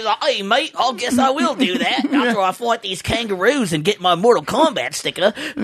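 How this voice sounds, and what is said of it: Put-on stereotyped Australian accent. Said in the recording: “Paul Hogan ... Australia. We did a lot of stereotyping right there. Sorry, Australians.”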